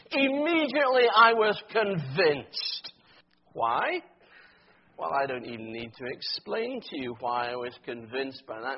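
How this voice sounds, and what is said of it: Scottish accent. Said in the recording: “My accent gives it away straight away. ... proud Scots”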